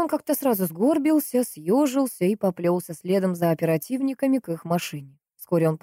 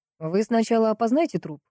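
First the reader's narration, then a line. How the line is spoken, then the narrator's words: Dry advice. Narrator (Russian): сухо посоветовал один из оперативников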